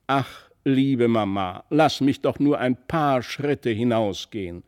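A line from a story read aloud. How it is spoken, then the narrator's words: Loud call. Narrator (German): rief er laut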